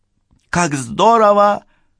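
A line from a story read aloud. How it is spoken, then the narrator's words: Exclaiming. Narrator (Russian): воскликнула та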